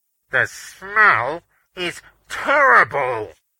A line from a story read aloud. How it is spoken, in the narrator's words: Beaners called, his voice muffled because he was covering his mouth with a white-gloved hand